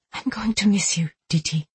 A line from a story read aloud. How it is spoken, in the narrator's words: she whispered